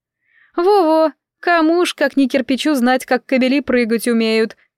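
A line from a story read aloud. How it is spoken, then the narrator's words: Ringing laughter. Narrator (Russian): сказала завитушка, заливисто засмеявшись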